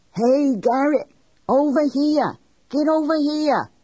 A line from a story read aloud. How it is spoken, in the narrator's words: Sonny Benoit scream